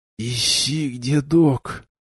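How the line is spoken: Whispered. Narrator (Russian): прошептал я

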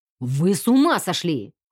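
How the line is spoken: Growled. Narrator (Russian): рыкнул полковник Хьюз

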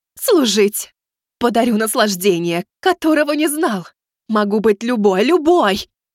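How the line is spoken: Demon pleading, thin feminine voice. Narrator (Russian): продолжал молить демон тонким женским голосом

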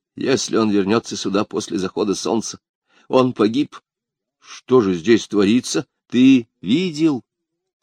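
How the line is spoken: Plain. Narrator (Russian): сказал Альберик

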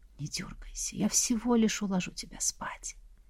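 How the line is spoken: Demon whispering. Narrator (Russian): демон еще и прошептал

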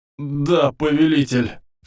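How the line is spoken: Sobbing. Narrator (Russian): всхлипнул пожиратель

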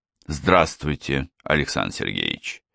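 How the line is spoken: Quiet speech. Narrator (Russian): тихо сказал я

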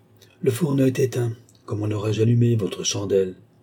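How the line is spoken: Grumbling girl. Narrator (French): grommela la fille

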